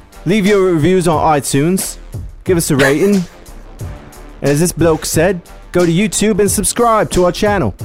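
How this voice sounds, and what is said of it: Put-on British accent. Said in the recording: “British fucking Barry ... In my British voice?”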